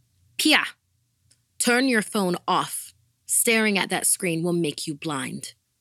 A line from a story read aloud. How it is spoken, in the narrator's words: my mom would shout